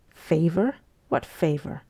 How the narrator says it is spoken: she asked him scornfully

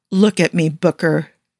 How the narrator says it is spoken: she says, firmly plastering that facade of strength onto her face to hide how much she's breaking inside

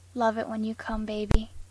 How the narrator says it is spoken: Dean whispered

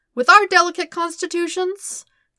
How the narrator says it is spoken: Kuzan gasped

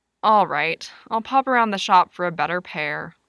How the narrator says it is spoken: Lewis grumbled

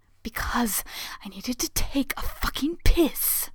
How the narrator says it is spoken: Hayato gasps

